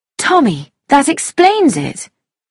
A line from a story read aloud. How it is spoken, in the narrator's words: she cried